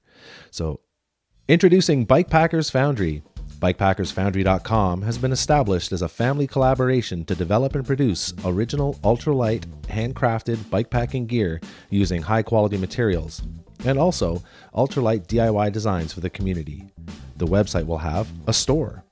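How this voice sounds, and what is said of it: Radio announcer voice. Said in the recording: “I'm going to use my radio voice for this”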